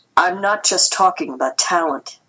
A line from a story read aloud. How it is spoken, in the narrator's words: Dad said